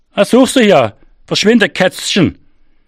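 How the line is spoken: Calling after someone. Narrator (German): rief er mir nach

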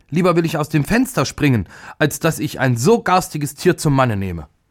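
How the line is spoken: Furious scream. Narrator (German): Die älteste Prinzessin wurde vor Zorn ganz weiß und schrie

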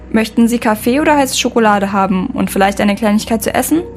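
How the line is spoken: Plain. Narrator (German): fragte er

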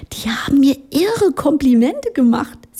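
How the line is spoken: Giggling. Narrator (German): sie kicherte

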